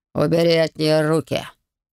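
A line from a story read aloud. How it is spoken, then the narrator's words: Icy command. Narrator (Russian): ледяным тоном приказал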